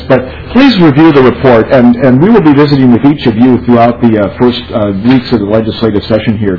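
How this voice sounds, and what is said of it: Strained voice, losing his voice. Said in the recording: “my voice is losing, I'm losing my voice.”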